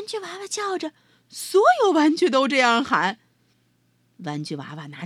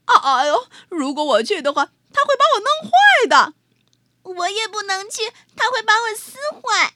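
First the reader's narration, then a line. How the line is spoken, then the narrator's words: Robot crying out. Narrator (Chinese): 机器人喊了起来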